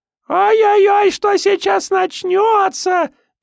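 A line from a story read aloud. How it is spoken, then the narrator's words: Squeaky shriek. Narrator (Russian): писклявым голосом заверещал артист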